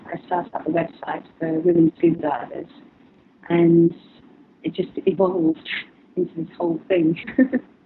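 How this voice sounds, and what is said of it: Noticeable accent. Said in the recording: “Sorry, it's my accent.”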